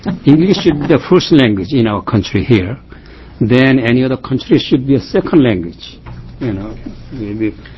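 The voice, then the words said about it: Strong non-native English accent. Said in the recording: “you speak very, you know, strong accent ... the way I pronounce differences of the American here”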